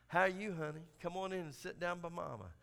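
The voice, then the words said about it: Imitated Southern Alabama accent. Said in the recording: “That Southern, that Alabama accent.”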